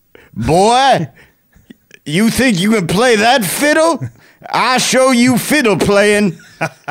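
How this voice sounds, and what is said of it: Devil character voice. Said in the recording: “I got a pretty good devil impersonation.”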